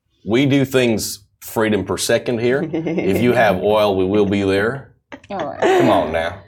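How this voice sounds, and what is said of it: Put-on American accent. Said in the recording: “that is the American accent”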